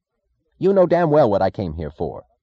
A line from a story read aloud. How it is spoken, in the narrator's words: he snapped